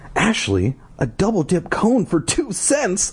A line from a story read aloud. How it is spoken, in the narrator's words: I cried in surprise